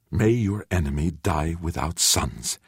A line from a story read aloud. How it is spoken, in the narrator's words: Jahan said fiercely, in tears